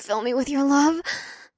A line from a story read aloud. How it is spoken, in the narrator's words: let out another moan